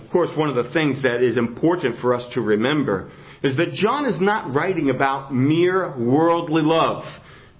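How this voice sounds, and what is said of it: New Jersey accent. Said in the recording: “hear my New Jersey accent, it's not the great Northwest accent. It's the New Jersey accent.”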